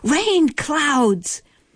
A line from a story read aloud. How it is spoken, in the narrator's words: shouts